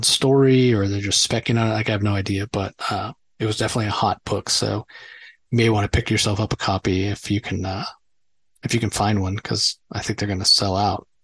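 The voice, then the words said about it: Tired, worn-out voice. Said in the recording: “my voice is not quite up to snuff. Really tired”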